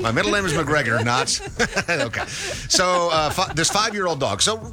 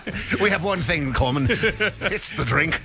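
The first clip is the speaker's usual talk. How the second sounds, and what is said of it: Put-on Scottish accent. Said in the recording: “doing the Scottish accent there”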